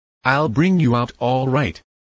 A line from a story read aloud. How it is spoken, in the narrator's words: he said